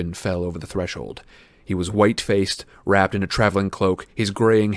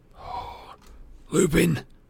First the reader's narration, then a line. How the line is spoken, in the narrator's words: muttered Bill